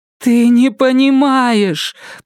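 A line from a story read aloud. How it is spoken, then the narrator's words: Moaning. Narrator (Russian): простонала она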